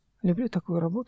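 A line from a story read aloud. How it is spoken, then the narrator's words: Quiet. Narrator (Russian): сказал тихо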